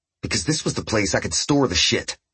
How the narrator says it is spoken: Martin snapped

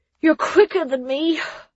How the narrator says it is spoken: the words came out in a pained wheeze

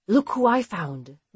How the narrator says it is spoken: Bernadette announced, whispering

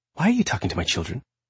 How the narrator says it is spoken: Mom asked sharply

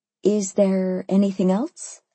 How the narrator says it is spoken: I asked

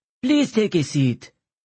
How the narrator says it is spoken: said the elderly secretary with an Armenian accent

